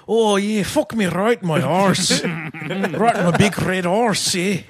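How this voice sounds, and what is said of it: Put-on Irish accent. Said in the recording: “I do like Irish. ... Now do Scottish.”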